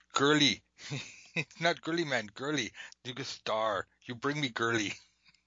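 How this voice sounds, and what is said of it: Arnold Schwarzenegger impression. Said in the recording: “doing the Arnold thing ... your accent's better than mine”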